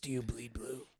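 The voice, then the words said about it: Deep gravelly Batman-style voice. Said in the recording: “In a Batman voice”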